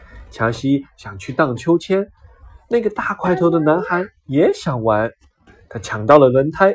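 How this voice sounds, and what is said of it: Usual voice. Nothing is said of it.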